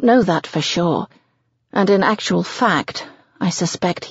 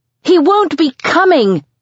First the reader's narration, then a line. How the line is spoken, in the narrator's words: I shout